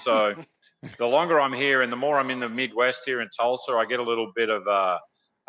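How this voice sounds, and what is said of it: Australian accent. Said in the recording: “I like that accent, too, man. Is that Australian? ... It started as an Australian accent”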